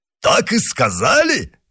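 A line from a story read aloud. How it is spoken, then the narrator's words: Smiling exclamation. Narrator (Russian): воскликнул Портос, расплылось в улыбке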